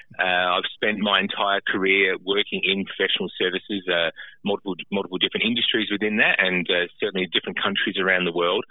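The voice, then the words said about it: Australian accent. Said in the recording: “as you might have picked up from the accent, you know, I'm originally from Australia”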